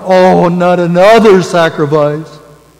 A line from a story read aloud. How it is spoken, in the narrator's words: responding with a groan